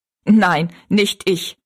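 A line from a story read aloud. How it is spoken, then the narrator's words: Laughing. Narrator (German): sagte Jinks und lachte wieder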